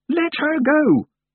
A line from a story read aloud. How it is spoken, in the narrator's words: yelled